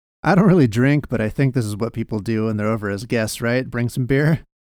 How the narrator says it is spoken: he laughed

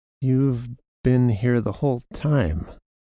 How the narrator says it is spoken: Janos said slowly

